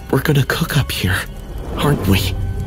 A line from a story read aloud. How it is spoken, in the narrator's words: Jake's voice was barely a whisper, raw with fear